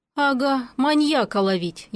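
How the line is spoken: Heavy sigh. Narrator (Russian): я тяжело вздохнула

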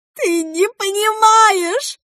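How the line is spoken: Hurt wail. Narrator (Russian): завопила Саммер с обидой

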